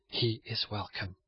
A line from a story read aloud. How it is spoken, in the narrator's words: Charles faintly answered